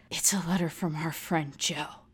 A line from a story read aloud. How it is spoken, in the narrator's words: he whispers